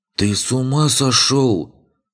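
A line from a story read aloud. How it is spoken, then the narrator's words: Hissed. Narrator (Russian): прошипел Беркут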